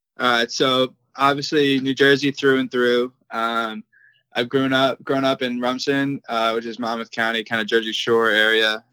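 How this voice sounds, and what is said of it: New Jersey accent. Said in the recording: “pick up any sort of an accent. You are a native of the great Garden State of New Jersey ... you'll get more of his accent”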